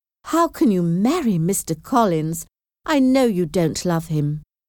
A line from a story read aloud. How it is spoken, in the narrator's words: exclaimed